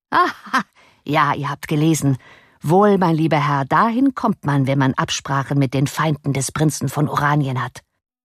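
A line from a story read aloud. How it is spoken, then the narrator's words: Laughing reply. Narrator (German): Lachend erwiderte Gryphus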